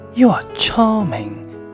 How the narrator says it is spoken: he cried

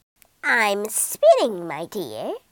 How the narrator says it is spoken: croaked the old woman

